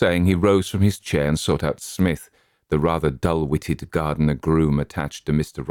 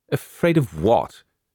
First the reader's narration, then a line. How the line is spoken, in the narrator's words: said her father in the irritated voice of a man who is growing frightened